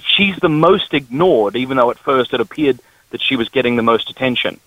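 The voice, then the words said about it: Slight Australian accent. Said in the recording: “Our listeners, I think, will detect a bit of an accent from you ... I'm from the Deep South, that is Australia.”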